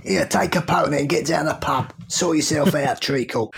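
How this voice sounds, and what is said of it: Put-on London Cockney accent. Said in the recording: “do I have to do my London accent?”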